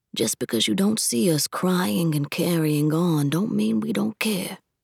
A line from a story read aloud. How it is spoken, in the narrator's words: Papa had said softly